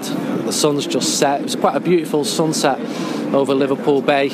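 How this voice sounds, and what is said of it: Manchester accent. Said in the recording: “my Manchester accent”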